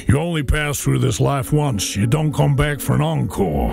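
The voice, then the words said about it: Poor imitation of Elvis Presley's voice. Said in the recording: “terrible Elvis impersonation”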